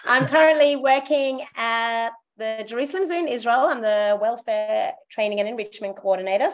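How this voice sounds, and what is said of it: Australian accent. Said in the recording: “As you can tell, I have an Australian accent”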